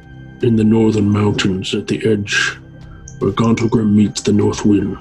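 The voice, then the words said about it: Raspy, edgy character voice. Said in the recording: “This voice is working for you right now. ... being sick, it's like give me a little extra edge ... it's like in Friends when Phoebe has like a sexy voice. It's really good. ... A raspy voice.”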